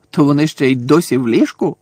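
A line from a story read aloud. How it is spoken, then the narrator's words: Grumpy grumble. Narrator (Ukrainian): сварливо буркнув Фред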